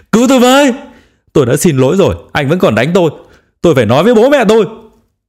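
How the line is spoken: Wailing, crying. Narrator (Vietnamese): bắt đầu gào khóc

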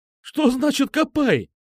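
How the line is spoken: Shrill squeal. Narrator (Russian): взвизгнул он в ответ

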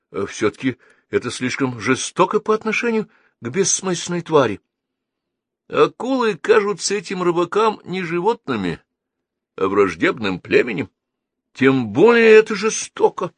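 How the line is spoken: Exclaiming. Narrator (Russian): воскликнул Геннадий

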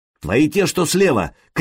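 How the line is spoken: Shouting. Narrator (Russian): крикнул Сергей

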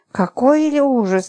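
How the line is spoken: Frightened pleading. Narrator (Russian): Липочка побледнела и взмолилась

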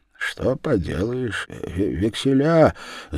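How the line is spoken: Muttering. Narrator (Russian): забормотал он

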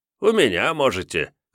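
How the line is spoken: Chuckling man. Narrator (Russian): хохотнул мужик

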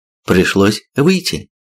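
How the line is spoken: Calm. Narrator (Russian): спокойно проговорила

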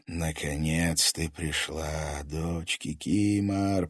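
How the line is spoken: Whisper inside her head. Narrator (Russian): прошептал голос в ее голове

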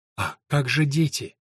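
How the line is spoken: Gentle interruption. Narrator (Russian): мягко прервала его Эллен

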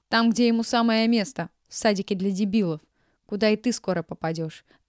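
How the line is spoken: Barking. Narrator (Russian): рявкнула Елена Ивановна

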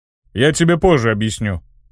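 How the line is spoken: Snorting remark. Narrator (Russian): хмыкнул Ханк

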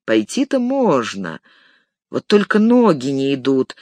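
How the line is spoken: Sigh. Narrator (Russian): вздохнул Мэри

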